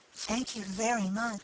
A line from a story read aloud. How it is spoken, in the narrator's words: she whispered in reply